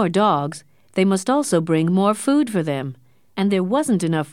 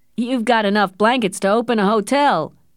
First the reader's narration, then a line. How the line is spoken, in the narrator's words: laughed another man